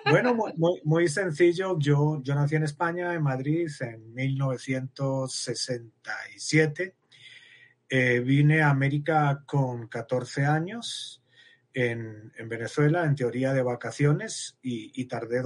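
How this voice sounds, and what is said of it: Spanish accent from Spain. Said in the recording (Spanish): “tu bello acento español”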